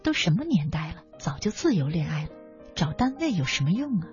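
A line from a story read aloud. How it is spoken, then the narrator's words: Soft muttering. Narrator (Chinese): 有人轻声嘀咕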